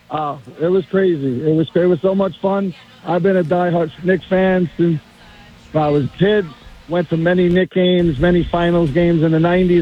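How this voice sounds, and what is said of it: Slightly strained, rough voice. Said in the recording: “my voice is a little messed up from screaming”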